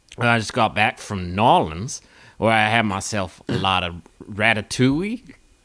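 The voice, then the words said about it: Put-on wavering Southern accent. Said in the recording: “is it going to be New Orleans or is it going to be the Deep South? ... fluctuating back and forth across the Gulf of Mexico ... why your accent has been so impacted”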